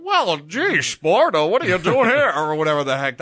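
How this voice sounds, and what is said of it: Imitates another person's voice. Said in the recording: “doing the James Stewart impression ... an impression of Dana Carvey doing a James Stewart impression”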